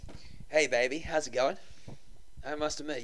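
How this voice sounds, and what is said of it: Put-on Australian accent. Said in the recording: “do like a Australian accent ... most girls wouldn't like tell the difference ... I got an Australian accent”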